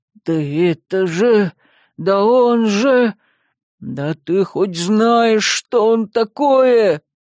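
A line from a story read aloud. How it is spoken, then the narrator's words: Howling. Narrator (Russian): буквально взвыл Яр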